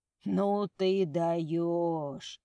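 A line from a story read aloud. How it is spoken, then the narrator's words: Muffled wheeze. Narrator (Russian): просипел Марьяныч, прикрывая рот надушенным платком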